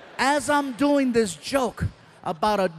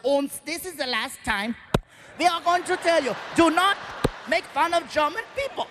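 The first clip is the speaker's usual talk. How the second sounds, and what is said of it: Put-on German accent. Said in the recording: “a German kicking me on the floor with the accent”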